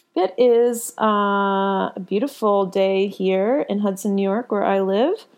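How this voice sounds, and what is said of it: Unusually low, deep voice. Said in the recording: “Why is my voice so low today? ... little Ron Burgundy in there for you ... my bedroom voice”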